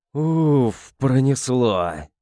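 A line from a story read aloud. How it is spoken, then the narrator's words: Relieved exhale through teeth. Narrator (Russian): Выдохнул сквозь стиснутые зубы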